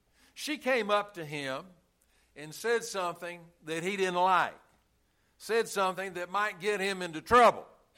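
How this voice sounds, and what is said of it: New York City accent. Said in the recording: “does everybody know where you're from by your accent? ... Bet you didn't know I was from New York City, did you?”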